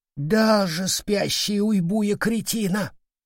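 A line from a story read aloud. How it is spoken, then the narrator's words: Exhaled. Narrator (Russian): выдохнул козявый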